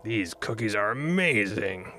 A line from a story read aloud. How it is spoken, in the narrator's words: growled Doug